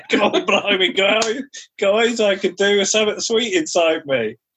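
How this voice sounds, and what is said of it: Put-on accent, possibly Australian. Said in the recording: “Where's she Australian ... Sorry for the accent.”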